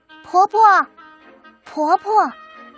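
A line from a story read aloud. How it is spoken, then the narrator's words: Calling out. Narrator (Chinese): 阿山喊了一声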